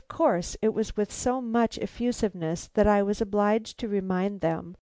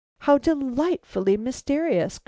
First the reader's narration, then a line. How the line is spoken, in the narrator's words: cried Isabella, and with this girlish exclamation